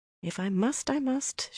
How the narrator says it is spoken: she muttered, only half under her breath

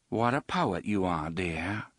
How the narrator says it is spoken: Susanna said dryly

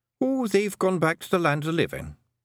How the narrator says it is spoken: said Rob Anybody cheerfully

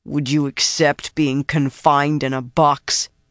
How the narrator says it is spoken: His voice grated, stone grinding on frozen stone

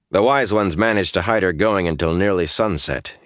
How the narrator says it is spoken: he said stiffly

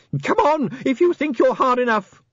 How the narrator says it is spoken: he screamed wildly

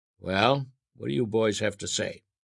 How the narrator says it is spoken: Uncle Jack asked sternly

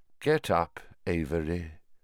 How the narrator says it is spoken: said Voldemort softly

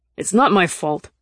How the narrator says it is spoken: he said angrily

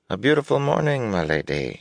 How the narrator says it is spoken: murmured

